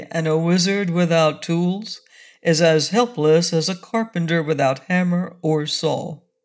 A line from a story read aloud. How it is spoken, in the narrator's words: said the wizard sadly